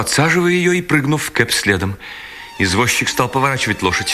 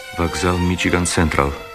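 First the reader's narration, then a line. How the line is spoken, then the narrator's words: Very quiet. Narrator (Russian): сказал ему Герствуд так тихо, что Керри не могла его слышать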